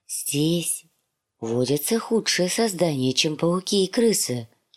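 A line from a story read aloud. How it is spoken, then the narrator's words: Whispered. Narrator (Russian): прошептал он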